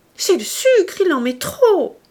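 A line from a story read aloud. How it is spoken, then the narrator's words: Shouted. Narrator (French): cria-t-elle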